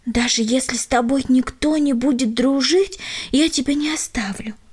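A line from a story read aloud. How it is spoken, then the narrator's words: Parting whisper. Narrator (Russian): шепнула она напоследок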